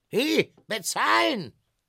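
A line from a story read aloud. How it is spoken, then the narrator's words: Calling out. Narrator (German): rief der Verkäufer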